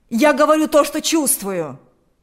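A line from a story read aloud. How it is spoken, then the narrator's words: Shouting. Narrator (Russian): закричал Игорь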